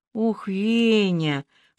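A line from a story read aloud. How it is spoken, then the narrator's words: Breathless exclamation. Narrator (Russian): выдохнула Аля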